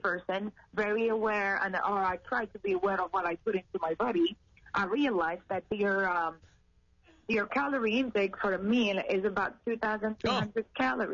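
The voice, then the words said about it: French accent in English. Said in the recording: “I speak French. That's the accent.”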